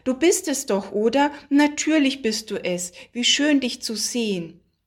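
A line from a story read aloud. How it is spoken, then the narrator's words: Woman calling out. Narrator (German): rief die Frau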